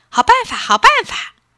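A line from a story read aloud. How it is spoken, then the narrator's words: Excited cheering mice. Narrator (Chinese): 老鼠们都拍着手叫起来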